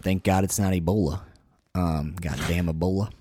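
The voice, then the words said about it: Put-on southern accent. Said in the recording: “Why'd you go into a southern accent? ... I don't control my accents. They just happen.”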